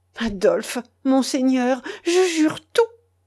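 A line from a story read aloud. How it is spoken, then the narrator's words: Exclaimed eagerly. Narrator (French): s'écria-t-elle avec vivacité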